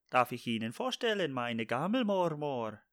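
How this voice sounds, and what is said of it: Attempted put-on Swedish accent. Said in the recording (German): “das ist jetzt mein schwedischer Akzent ... das ist kein dänischer Akzent. Äh, holländischer. Nein, schwedisch ... eher Gammel, Schweizerdeutsch-Versuch”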